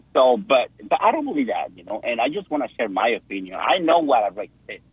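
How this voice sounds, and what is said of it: Foreign accent. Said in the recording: “because of your accent, because you come from another country”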